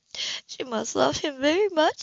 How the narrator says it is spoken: she added, almost choking on the words

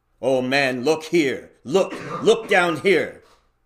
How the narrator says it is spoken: exclaimed the ghost

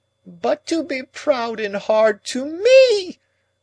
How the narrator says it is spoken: Miss Havisham quite shrieked

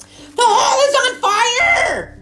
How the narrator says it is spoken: shouted the boy

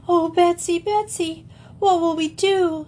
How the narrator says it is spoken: she gasped

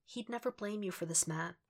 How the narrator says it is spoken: Karen nods, in a whisper

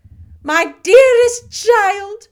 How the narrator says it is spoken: she cried

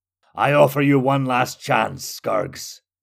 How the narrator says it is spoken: Jehir bellowed

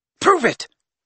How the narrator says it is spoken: said Riddle at once, in the same commanding tone

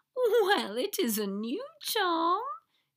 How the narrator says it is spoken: she said, with a high giggle

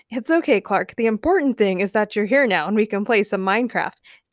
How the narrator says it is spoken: James said happily

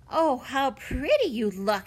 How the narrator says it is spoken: exclaimed Violet

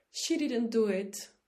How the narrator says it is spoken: Debbie Miller cried, jumping up from the spectator section

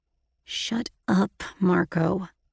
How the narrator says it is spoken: I growled

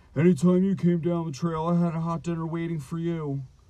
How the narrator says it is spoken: Troll grew furious, screaming

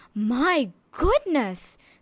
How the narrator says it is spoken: the king exclaimed

